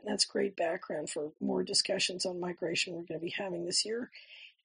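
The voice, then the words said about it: Hoarse, strained voice. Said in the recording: “this laryngitis is gone by this weekend, because I don't know about you, but I'm sick of listening to this anyway”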